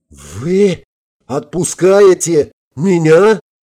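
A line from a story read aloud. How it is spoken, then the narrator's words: Howled. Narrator (Russian): взвыл Венцель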